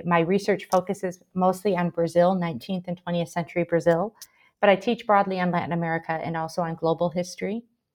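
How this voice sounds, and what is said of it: American Michigan accent. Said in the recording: “I'm originally from the United States. You can probably tell from my accent. I'm from Michigan originally”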